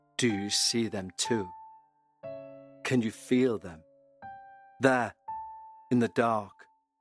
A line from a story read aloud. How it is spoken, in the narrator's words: he said in a low but steady voice